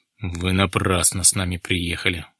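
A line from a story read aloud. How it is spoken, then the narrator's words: Sigh. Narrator (Russian): вздохнул он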